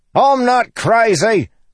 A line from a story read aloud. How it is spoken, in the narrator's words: Lopin yelled back